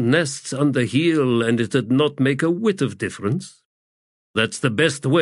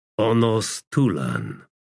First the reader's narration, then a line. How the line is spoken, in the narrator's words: Draconis muttered